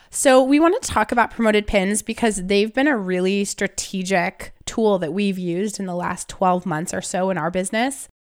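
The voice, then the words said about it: Voice sounds unwell. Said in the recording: “apologize for my voice. I'm a little under the weather, but it mostly sounds worse than it is.”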